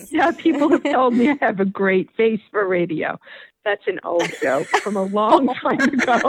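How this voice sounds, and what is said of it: Usual voice. Nothing is said of it.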